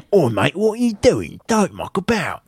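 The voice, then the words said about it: Put-on East London accent. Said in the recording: “He's from East London now. I don't know why I gave him his accent. He's kind of like Jason Statham now.”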